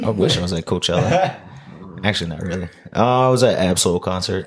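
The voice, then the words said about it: Hoarse, barely-there voice. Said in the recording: “I know you can barely talk ... lost my voice”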